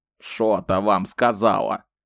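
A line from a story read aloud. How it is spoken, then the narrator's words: Angry mocking mimicry. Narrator (Russian): сердито передразнил Зет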